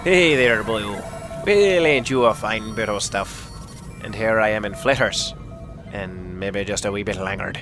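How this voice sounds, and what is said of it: Poor put-on Irish accent. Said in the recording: “a poor attempt at an Irish accent.”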